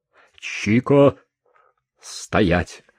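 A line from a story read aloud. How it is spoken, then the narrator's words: Sergeant's stern command. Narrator (Russian): грозно велел сержант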